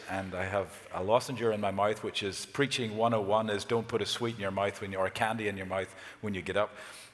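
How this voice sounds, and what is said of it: Slightly hoarse voice. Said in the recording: “my voice is a little hoarse”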